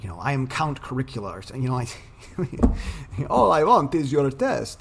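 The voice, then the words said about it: Vampire voice with Russian accent. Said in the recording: “Why does the vampire sound Russian?”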